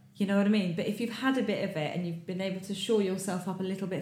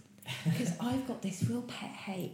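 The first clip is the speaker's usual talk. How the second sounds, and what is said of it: Whispering. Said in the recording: “I'm going to whisper this.”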